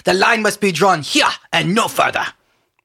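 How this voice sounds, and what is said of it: Jean-Luc Picard impression. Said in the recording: “you have to do a better impression ... I thought I did a good rendition ... that is a good rendition ... Jean-Luc Picard”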